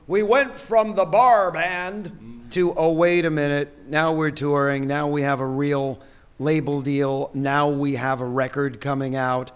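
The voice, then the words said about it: Announcer voice. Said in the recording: “I'll do it in the full announcer voice”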